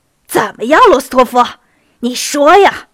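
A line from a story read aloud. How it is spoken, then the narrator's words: Shouting. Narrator (Chinese): 杰尼索夫跳起来喊道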